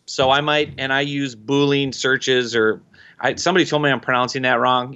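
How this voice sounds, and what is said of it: Minnesota accent, drawn-out O vowels. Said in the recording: “I'm from Minnesota. We have to accent our O's”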